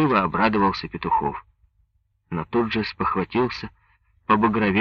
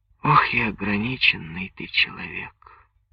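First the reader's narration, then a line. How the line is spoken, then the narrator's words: Mournful sigh. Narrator (Russian): Скорбно вздохнула Соня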